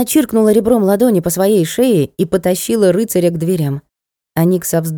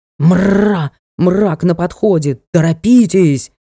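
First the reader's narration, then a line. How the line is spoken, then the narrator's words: Indignant ghostly wail. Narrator (Russian): Возмущенно взвыл призрак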